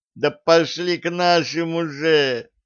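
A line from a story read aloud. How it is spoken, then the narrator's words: Pleading. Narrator (Russian): взмолился он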